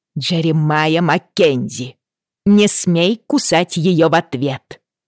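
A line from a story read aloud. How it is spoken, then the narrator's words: Roar. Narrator (Russian): взревела Бриана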